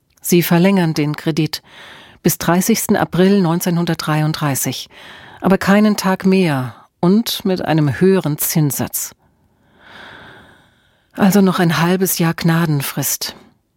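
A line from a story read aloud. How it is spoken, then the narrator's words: Sighing. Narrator (German): Emma seufzte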